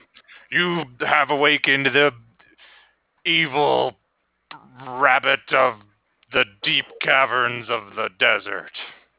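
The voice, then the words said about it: Deep evil character voice. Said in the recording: “it's a cool deep voice. It's because I'm all evil”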